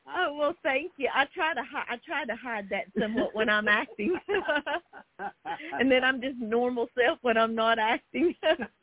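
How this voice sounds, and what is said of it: Noticeable regional accent. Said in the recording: “Your accent ... She's got a great accent, doesn't she?”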